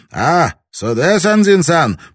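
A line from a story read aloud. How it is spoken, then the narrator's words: Captain barking. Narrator (Russian): капитан гаркнул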